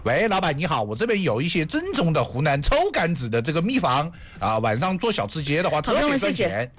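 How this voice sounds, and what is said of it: Put-on regional Chinese accent. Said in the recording (Chinese): “你知道为什么我要用这样的口音跟大家说话吗？ ... 你听我这个口音这么正宗”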